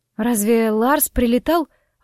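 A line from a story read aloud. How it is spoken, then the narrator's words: Suddenly hoarse question. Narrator (Russian): внезапно осипшим голосом спросила я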